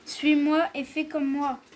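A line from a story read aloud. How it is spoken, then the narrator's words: Plain. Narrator (French): répondit Dédale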